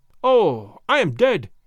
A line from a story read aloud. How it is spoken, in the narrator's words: he cried, several times over